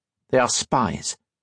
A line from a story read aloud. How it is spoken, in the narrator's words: Captain Monturiel said harshly